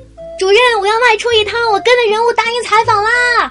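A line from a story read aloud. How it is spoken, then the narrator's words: Startled loud shout. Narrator (Chinese): 我忽然一惊，大声喊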